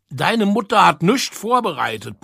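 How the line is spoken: Shout. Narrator (German): brüllte

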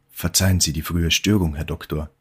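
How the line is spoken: Plain. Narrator (German): sagte

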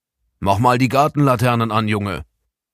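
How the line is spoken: Grandfather calling out. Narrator (German): rief Opa Blom

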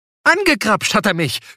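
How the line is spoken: Woman shouting. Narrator (German): schrie die Frau

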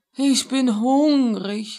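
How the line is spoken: Sighing. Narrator (German): sagte es und seufzte

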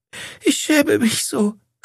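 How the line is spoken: Sobbing. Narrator (German): schluchzte

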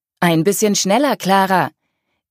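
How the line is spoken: Called over shoulder. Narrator (German): rief Mark über die Schulter

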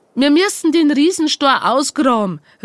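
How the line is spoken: Called out. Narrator (German): rief Franz

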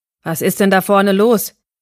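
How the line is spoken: Shouted from afar. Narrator (German): rief nun Arvids Vater Aragorn von der anderen Seite des Käfigs

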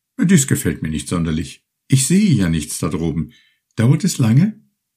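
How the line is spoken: Called out. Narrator (German): rief er bald

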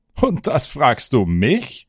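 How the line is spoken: Laughing hunter answering. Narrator (German): antwortete lachend der Jäger

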